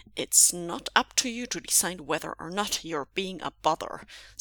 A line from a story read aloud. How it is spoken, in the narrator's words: said Zixuan firmly